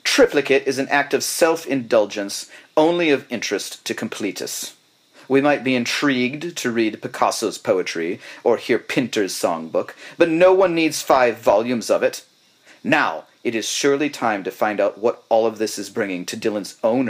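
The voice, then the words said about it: Put-on British accent. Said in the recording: “I'm going to do it in a British British accent.”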